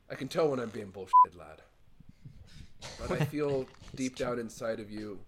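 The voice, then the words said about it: Inconsistent put-on accent. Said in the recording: “He's got an accent. ... My accent's all over the place, I know.”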